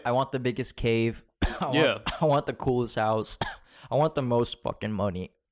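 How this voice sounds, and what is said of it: Deep, cough-affected voice. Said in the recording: “my cough is very deep. It's very deep. I have a deep voice now.”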